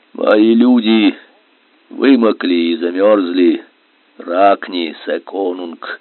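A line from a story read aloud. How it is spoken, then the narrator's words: Slow, strained whisper. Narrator (Russian): Медленно, с мучительным трудом прошептал Вагн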